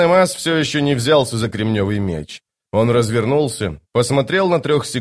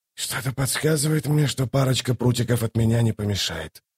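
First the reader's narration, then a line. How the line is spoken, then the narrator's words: Muttered. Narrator (Russian): пробормотал он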